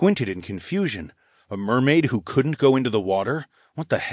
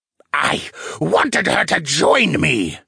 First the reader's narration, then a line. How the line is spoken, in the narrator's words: the wraith screeched